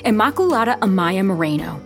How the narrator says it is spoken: the sister yelled

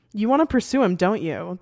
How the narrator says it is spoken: the bartender asks

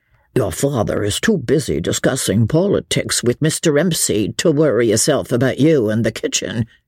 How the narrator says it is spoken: grumbled Jemima under her breath

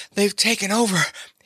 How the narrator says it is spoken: he panted

